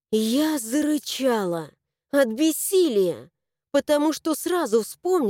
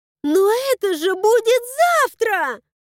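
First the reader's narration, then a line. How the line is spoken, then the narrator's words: Shouting. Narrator (Russian): закричала я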